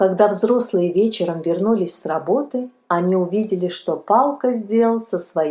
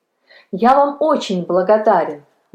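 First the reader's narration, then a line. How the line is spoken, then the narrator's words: Boy exclaiming. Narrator (Russian): воскликнул мальчик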